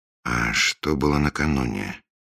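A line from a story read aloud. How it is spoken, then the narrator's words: Plain question. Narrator (Russian): спросил Фандорин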